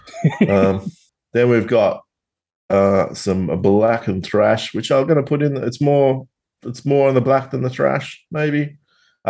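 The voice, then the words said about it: Tasmanian Australian accent. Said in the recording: “my Tasmanian accent”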